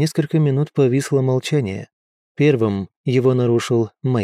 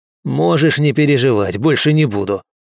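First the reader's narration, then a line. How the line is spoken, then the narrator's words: Snapping back. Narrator (Russian): огрызнулся Мэйд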